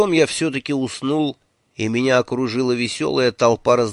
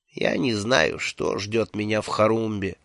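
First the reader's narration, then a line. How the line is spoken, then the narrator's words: Quiet. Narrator (Russian): тихо сказал он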